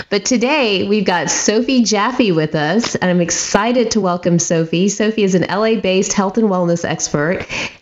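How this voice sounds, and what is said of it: Voice affected by a cold. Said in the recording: “apologize for my voice. I finally gave in to whatever cold is running around ... so you don't end up sounding like me”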